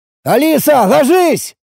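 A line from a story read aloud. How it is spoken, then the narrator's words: Shouted. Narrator (Russian): крикнул я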